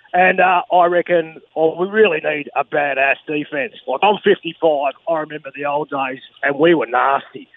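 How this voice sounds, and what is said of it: Australian accent. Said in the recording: “in an Aussie accent”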